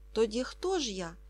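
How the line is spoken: Calm question. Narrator (Ukrainian): запитав Ка спокійно, як і досі

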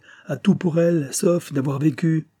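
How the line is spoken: Haughty, arrogant man. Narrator (French): réplique l'homme d'un ton hautain et plein de morgue

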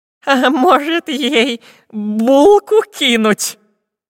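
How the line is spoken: Trembling question. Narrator (Russian): дрожащим голосом спросил длинноносый шпион Дырка

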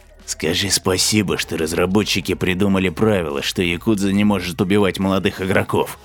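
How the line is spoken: Angry hiss. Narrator (Russian): зашипел

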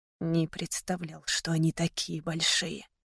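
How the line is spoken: Whisper. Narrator (Russian): прошептал

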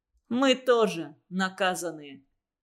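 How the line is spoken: Confident, mocking. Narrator (Russian): сказал Виктор, уверенный, что Плюха все равно не тронет, насмешливо добавил

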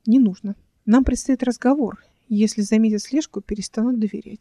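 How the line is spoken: Plain. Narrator (Russian): сказала Эл

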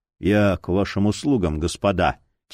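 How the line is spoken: Quiet. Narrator (Russian): тихо произнес он

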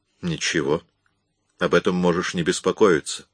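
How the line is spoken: Gentle. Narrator (Russian): мягко ответил Эллиот

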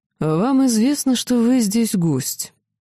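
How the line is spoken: Gloomy inquiry. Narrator (Russian): мрачно осведомился

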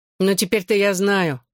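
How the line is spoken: Grumbling tone. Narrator (Russian): все тем же ворчливым тоном продолжал Джонни

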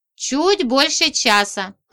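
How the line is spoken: Plain. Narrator (Russian): ответила я

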